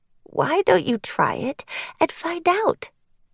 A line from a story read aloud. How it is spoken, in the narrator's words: she said sweetly